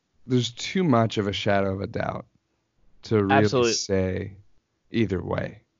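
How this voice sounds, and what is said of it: Sick, changed-sounding voice. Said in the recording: “apologize for my voice ... I've been feeling a little under the weather ... I thought my voice would be better today ... it's actually a little bit worse ... your voice changed ... some kind of filter or something”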